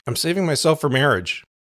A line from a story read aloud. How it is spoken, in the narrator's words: I blurted out